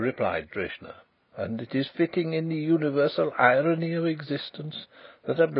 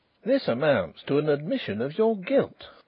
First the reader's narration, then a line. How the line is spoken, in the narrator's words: exclaimed Mr